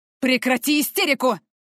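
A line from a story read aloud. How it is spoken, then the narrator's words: Man's harsh bark. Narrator (Russian): рявкнул мужчина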